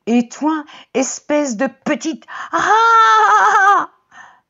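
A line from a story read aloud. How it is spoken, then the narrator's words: Startled scream. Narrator (French): hurle Chloé en se réveillant dans son lit en sursaut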